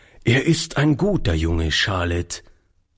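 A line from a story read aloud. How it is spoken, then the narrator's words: Plain. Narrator (German): sagte er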